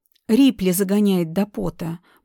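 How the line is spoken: Grumbling. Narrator (Russian): пробурчал

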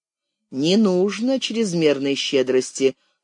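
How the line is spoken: Dry reply. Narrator (Russian): сухо откликнулся критик

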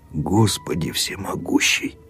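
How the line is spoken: Muttering. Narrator (Russian): только и пробормотал Аким Акимыч

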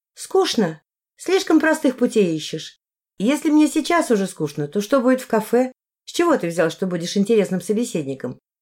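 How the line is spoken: Very calm question. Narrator (Russian): спросил я максимально спокойно

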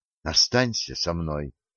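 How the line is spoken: Urgent close whisper. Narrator (Russian): горячо зашептала Рада в самое ухо

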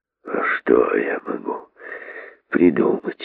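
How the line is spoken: Muttering. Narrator (Russian): бормотал король

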